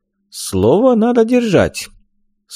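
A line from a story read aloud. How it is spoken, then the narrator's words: Stern. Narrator (Russian): строго сказал ибн Кемаль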